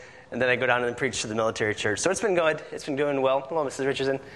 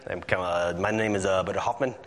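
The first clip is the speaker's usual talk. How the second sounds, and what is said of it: Put-on Dutch accent. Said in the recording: “I start talking in an accent like them... because they're all Dutch, they all have that accent.”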